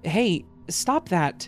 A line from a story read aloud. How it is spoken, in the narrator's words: I wasn't trying to sound scared or angry, but I couldn't help it, and I knew that my voice was lined with my shock